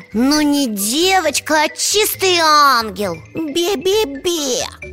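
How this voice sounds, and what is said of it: Mocking imitation of mother's voice. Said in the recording (Russian): “Это он маму передразнивает.”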